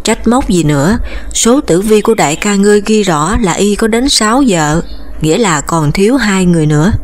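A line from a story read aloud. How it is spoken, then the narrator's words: Smiling. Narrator (Vietnamese): Trinh Tâm mỉm cười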